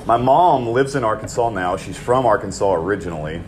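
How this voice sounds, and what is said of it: Southern US drawl. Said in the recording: “the southern draw you have ... anonymous Texan, huh? So I'm well aware of my accent”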